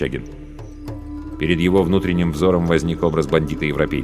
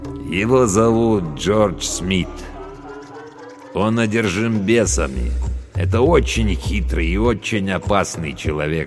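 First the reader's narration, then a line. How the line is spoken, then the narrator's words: Plain. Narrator (Russian): сказал Абдулла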